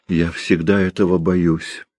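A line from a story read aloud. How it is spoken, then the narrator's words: Quiet. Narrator (Russian): сказала она тихо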